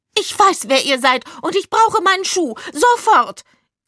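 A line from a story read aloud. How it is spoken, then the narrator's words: Shrill shriek. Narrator (German): kreischte sie mit einer echt schrillen Stimme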